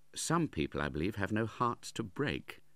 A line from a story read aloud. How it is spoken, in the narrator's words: observed Nicholas quietly